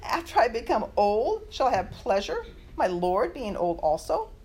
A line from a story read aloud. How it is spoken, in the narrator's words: Sarah laughed to herself, saying